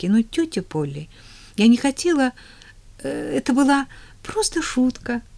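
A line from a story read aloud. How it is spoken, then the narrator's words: Trembling, deeply remorseful. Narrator (Russian): дрожащим голосом сказала она с глубоким раскаянием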